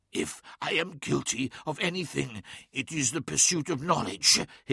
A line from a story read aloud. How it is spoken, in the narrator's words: hissed Magnus through clenched teeth